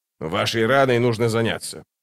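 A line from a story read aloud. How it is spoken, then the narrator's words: Grumbling. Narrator (Russian): проворчал он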